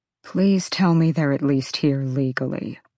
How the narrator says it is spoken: Rune said quietly

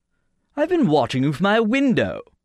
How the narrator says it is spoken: he said in his hooting voice, with a rare trace of personal interest

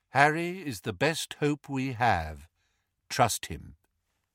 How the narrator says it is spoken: said Lupin calmly

